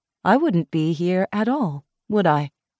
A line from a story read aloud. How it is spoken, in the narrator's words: Caro said evenly